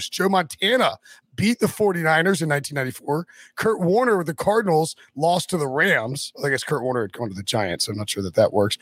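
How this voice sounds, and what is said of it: Hoarse, nearly lost voice. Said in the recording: “my voice is gone. I can't figure out what I might have done this weekend to lose my voice.”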